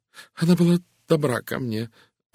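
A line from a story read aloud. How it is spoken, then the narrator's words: Sighing. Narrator (Russian): вздохнула миссис Таниус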